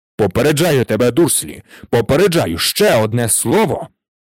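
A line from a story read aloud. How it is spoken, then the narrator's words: Exclaimed. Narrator (Ukrainian): вигукнув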